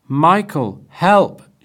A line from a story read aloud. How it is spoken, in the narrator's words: she shouted